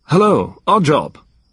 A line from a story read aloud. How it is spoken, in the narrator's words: said more loudly